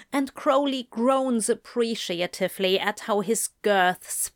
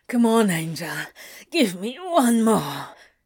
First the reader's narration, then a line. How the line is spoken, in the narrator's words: grunts, bouncing on his sturdy thighs